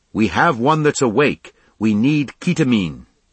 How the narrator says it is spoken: Captain Haynes shouting

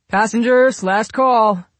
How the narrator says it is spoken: the young airman shouted from inside

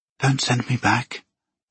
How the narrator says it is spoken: Hazel whispered

